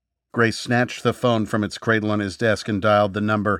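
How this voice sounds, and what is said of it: Usual voice. Nothing is said of it.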